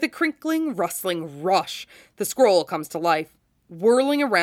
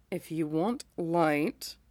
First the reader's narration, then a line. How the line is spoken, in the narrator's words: Orochimaru says, sounding faintly aggrieved